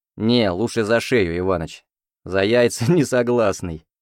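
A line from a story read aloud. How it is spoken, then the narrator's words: Short laugh. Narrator (Russian): хохотнул я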